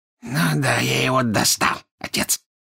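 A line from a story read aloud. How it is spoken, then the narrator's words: Hoarse laughter. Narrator (Russian): хрипло засмеялся Морфин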